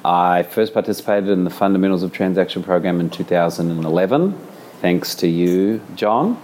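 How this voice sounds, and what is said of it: New Zealand accent. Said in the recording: “I am a New Zealander, as you can probably tell from the accent.”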